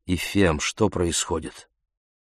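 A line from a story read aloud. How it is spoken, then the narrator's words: Sigh. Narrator (Russian): Она вздохнула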